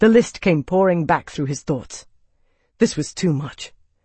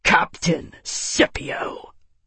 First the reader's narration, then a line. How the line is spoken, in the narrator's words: Tavi snarled